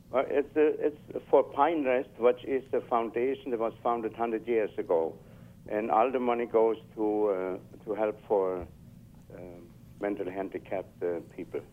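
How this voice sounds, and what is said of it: German accent. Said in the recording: “that's a little different than a Kansas accent ... my accent is really totally German”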